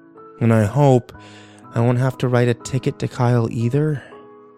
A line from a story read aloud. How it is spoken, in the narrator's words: I sighed